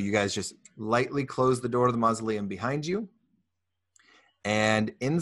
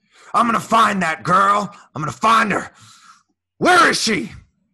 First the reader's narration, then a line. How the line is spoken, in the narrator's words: you can hear the mayor shouting